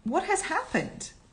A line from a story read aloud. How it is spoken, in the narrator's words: she cried again